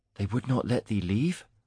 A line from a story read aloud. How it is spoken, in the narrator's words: Mara whispered